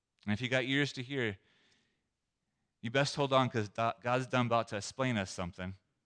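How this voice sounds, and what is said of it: Put-on southern drawl. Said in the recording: “That's my attempt at a southern drawl.”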